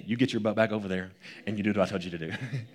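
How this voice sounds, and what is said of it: Imitates a scolding mother's voice. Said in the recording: “He sounds like my mom”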